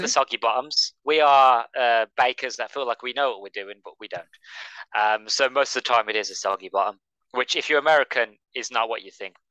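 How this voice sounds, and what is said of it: English Midlands accent. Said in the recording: “it'll sound better in your accent ... I'm from the Midlands”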